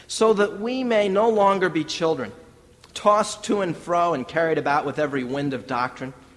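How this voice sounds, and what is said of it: Reading scripture aloud quickly. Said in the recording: “I'm reading it quickly”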